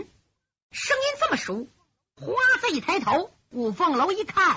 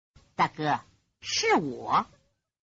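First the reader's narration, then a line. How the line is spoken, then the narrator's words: Low voice. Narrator (Chinese): 那个花子低声说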